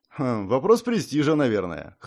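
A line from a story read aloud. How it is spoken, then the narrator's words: Wry grunt. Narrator (Russian): хмыкнул я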